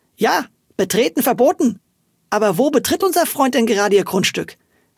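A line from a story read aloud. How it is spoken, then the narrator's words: Called out. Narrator (German): rief sie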